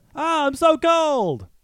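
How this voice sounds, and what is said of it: Polar bear character voice. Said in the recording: “I can do panda bear, polar bear. This is my polar bear.”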